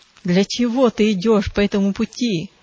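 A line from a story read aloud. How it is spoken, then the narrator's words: Growling. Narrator (Russian): зарычал Зловещий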